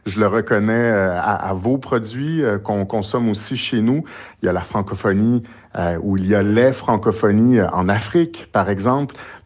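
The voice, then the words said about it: French with a regional accent. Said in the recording (French): “Vous le reconnaissez à mon accent en ce moment.”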